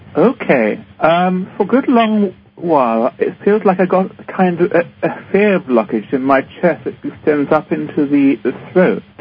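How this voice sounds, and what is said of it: English accent. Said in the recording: “you have this beautiful English accent”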